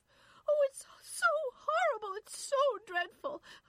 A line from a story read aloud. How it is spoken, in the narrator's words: Irene was sobbing